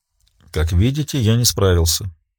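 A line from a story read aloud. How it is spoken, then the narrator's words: Quiet. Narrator (Russian): тихо произнес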